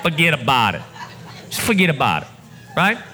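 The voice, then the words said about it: Imitated New Jersey accent. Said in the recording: “I may not be doing the Jersey accent justice”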